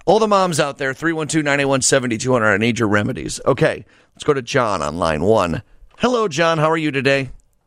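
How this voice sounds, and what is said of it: Hoarse voice. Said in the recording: “a hoarse voice just from overuse, I'm not sick or anything”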